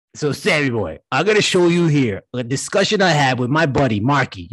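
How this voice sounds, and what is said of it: Put-on Brooklyn accent. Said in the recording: “I'm from Brooklyn. That's why I got this accent.”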